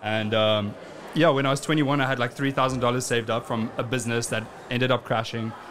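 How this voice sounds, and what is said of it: South African accent. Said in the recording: “funny accent's from ... I am from South Africa”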